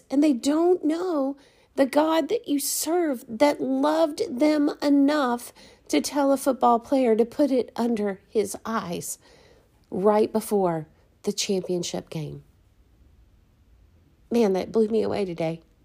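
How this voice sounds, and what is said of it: Emotional, moved voice. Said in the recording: “I'm sorry for getting emotional, ... It is emotional and it should be.”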